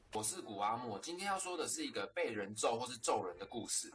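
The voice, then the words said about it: Taiwanese-accented Mandarin. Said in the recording (Chinese): “这是个台湾口音的”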